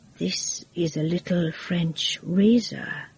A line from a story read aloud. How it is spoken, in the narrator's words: he said quietly